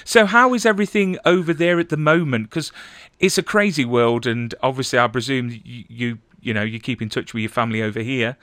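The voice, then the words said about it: English accent. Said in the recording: “Good to hear an English accent.”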